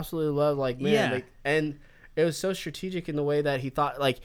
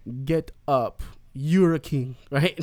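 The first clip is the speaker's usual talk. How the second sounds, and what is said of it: Poor fictional Wakandan accent. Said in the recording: “That's my worst ... Wakanda accent right now as I'm drinking”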